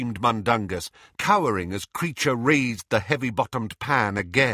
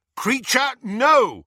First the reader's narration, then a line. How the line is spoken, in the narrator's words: shouted Harry